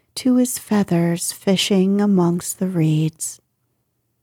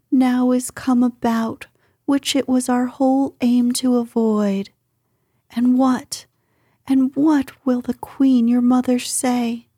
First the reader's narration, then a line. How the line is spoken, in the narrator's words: she cried with lamentation